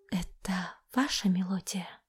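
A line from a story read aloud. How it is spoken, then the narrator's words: Near whisper. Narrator (Russian): Ее голос прозвучал почти шепотом, когда музыка затихла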